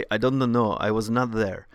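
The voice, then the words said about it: Imitates another person's accent. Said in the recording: “that was my best impression of his accent.”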